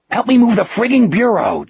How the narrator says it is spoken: Jack hissed

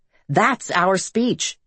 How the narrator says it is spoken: exclaimed

